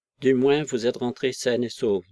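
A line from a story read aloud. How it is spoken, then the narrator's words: Decisive. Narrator (French): dit-il enfin d'un ton décisif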